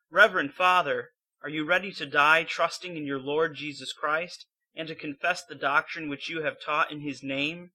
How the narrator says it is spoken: His companions, Justice Jonas and Michael Coelius, shouted loudly

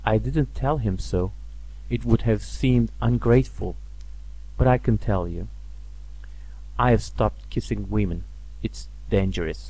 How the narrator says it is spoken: he went on quietly

